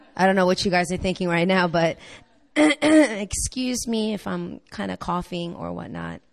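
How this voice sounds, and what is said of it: Partly lost, hoarse voice. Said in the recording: “I kind of lost my voice a little bit”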